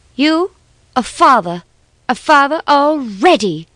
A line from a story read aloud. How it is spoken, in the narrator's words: she cried, all her sweetness swallowed up in unforgiving wrath